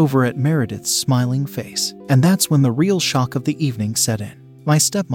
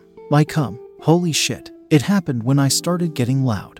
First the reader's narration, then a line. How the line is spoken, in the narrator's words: said